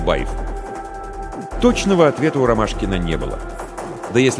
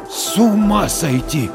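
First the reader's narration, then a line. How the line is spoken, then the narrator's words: Stunned exhale. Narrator (Russian): ошарашенно выдохнул Дворкин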